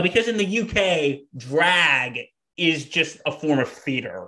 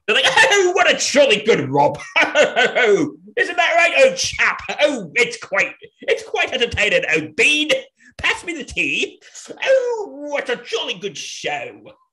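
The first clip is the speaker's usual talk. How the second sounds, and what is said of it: Exaggerated bad British accent. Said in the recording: “my terrible British accent”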